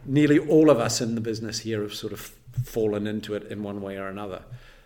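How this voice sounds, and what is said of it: New Zealand accent. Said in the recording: “you're probably picked by my accent. I'm not born in the Lothians. I'm actually a Kiwi, born in New Zealand”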